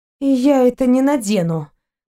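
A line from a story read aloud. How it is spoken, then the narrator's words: Gloomy. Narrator (Russian): мрачно проговорила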